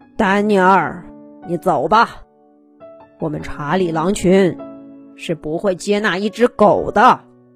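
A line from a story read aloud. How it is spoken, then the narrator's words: Deep, low voice. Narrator (Chinese): 沉声说道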